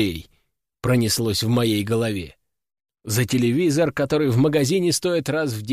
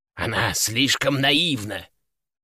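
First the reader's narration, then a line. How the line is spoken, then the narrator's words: Hiss. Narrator (Russian): прошипел попугай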